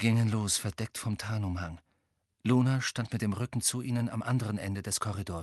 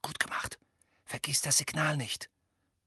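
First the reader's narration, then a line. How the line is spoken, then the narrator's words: Whispering. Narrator (German): flüsterte Hermine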